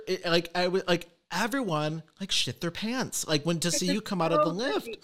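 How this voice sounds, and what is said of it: Usual voice. Nothing is said of it.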